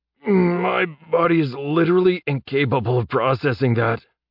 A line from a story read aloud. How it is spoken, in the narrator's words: said, groaning